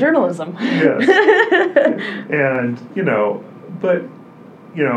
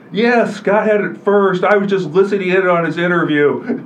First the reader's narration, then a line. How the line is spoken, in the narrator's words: he says in his big booming voice